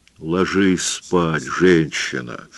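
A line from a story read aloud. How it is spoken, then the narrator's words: Gentle. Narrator (Russian): мягко сказал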